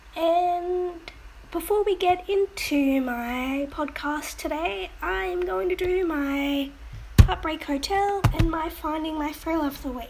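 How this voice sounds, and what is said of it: Voice affected by a cold. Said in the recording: “Sorry about my voice. I am coming off from a cold.”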